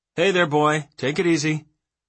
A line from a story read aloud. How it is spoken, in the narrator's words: Smith called out